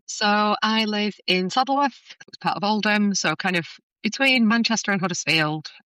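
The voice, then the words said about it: Northern English Oldham accent. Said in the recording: “I love your accent. ... a lovely accent from either Oldham or Bury or Bolton”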